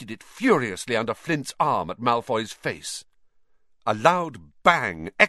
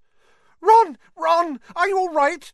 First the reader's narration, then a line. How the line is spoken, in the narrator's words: squealed Hermione